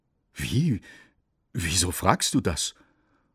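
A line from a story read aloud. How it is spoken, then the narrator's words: Priest still stammering. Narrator (German): So ganz war der Pfarrer noch nicht aus dem Stottern raus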